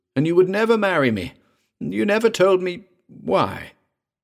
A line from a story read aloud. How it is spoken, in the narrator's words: cried Patou